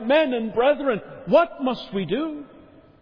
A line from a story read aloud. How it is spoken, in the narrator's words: the 3,000 on the day of Pentecost, they cried out